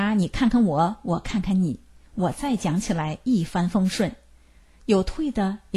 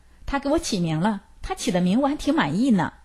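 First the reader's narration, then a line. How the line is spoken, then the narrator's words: Laughing, unreserved. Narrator (Chinese): 所长笑了，毫无顾虑地说道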